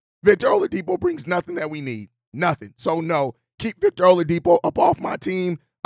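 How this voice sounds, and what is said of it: Voice cutting in and out. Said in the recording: “As you can hear, my voice is in and out.”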